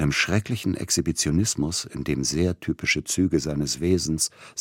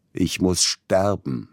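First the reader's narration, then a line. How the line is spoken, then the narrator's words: Sudden scream. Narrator (German): schrie er plötzlich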